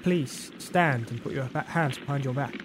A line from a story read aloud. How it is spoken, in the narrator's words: stammered Duncan